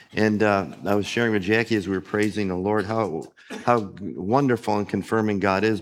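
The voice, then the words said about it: Put-on radio announcer voice. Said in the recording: “I'm working on my radio voice, just in case you're wondering what happened here”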